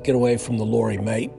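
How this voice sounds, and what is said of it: Thick British accent, almost Australian. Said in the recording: “sounded more Australian than anything, but it was a very thick British accent.”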